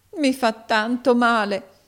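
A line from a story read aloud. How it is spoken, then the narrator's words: Pained exclamation. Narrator (Italian): esclamò la poverina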